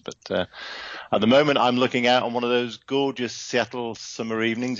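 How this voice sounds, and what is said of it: British accent. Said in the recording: “as you can hear, the accent isn't West Coast. It's British”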